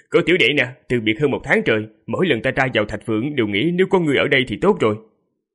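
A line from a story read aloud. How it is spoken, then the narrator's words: Hearty laughing. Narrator (Vietnamese): Đại hạ hoàng tử cười to rồi nói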